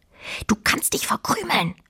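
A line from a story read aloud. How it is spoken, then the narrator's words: Quiet hiss. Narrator (German): zischte Fine leise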